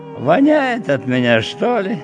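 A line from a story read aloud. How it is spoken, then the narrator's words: Cheerfully puzzled, thoughtful. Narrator (Russian): Весело удивляясь по поводу своих сбежавших мужей, она задумчиво проговорила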